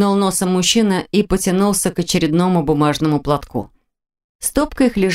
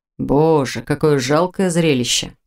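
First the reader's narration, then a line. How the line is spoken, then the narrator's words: Grumbling. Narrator (Russian): проворчал Виктор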